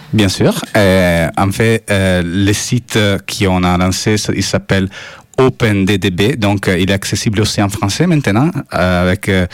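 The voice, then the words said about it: Foreign-accented French. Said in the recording (French): “mon accent, ça peut empêcher”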